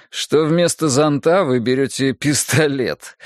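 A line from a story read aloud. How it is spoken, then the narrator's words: Smirking driver through teeth. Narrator (Russian): ухмыльнулся сквозь зубы водитель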